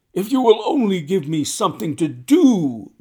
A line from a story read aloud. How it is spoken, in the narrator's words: was his constant wail